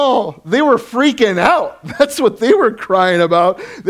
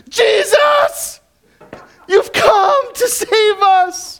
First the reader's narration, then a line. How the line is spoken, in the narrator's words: they cried out